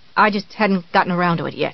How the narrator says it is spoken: Annie said sullenly

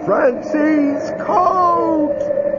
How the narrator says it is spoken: loud, bellowing

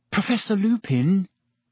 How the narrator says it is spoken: said Hermione timidly

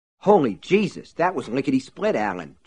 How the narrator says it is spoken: John exclaimed

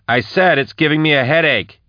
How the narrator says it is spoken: said Max, raising her voice

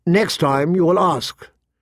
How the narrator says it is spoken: said, her voice sharp

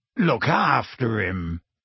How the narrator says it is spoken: said Hagrid croakily

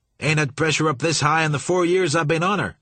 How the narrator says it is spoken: he shouted

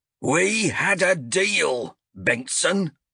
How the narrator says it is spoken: Azrek roared

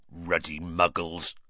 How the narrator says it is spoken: growled Hagrid

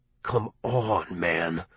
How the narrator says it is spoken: I said in a low voice

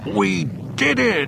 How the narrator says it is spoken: yelled triumphantly

